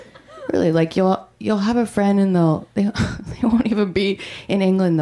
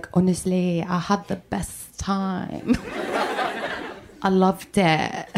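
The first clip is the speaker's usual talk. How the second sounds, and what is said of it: Put-on English accent. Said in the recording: “How come England is the only place that people come back from with an accent?”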